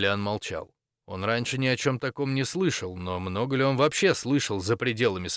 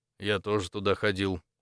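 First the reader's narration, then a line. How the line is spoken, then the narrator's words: Tired. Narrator (Russian): устало ответил Максимилиан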